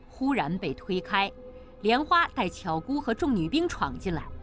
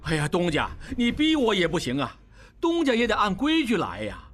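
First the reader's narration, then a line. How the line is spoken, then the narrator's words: Calm, loud. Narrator (Chinese): 王宗宇心中完全安定了，大声说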